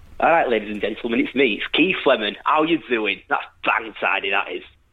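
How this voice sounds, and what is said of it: Leeds accent comedian impression. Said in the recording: “my Keith Lemon impression ... Everyone in Leeds can do the accent ... less of an impression and more just you doing your normal accent with a speech impediment”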